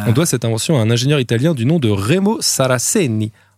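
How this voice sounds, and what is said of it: Put-on Italian accent. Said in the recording (French): “Admirez mon accent.”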